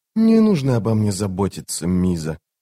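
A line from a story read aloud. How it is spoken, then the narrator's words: Quiet. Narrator (Russian): негромко сказала она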